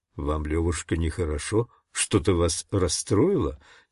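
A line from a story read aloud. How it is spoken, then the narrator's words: Quiet question. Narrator (Russian): тихо спросил он меня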